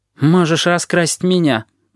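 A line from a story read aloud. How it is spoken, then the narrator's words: Glum offer. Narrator (Russian): уныло предлагает курильщик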